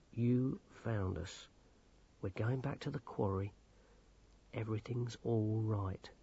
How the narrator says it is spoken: he said soothingly

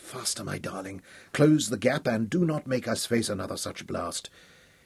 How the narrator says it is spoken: whispered

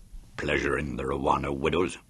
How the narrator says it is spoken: growled

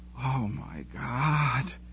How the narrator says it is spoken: she whispered

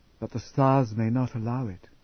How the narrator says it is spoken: she whispered

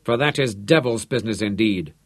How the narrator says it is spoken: Da Silva grumbled

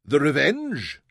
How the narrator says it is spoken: Kumra answered from the darkness, and his tone was puzzled

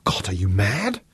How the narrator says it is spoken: she gasped

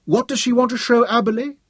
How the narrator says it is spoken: Dorian piped

